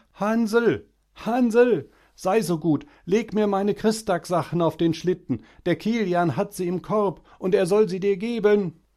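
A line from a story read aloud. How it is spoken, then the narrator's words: Shouting at full strength. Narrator (German): schrie ich von hinten her aus Leibeskräften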